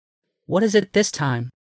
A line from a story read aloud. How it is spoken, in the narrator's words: Sighing in resignation, Rebecca said